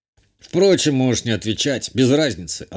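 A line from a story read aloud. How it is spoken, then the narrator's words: Dismissive. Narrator (Russian): отмахнулся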